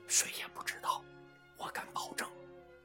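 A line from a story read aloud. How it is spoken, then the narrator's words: Soft reply. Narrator (Chinese): 理查兹也轻声回答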